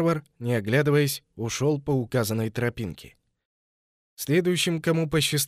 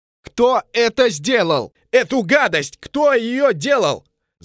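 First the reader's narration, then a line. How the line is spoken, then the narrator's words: Yelling. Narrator (Russian): заорал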